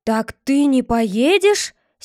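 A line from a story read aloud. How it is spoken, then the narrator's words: Angry question. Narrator (Russian): сердито спрашивал Чечевицын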